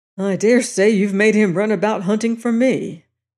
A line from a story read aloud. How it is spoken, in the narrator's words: he grumbled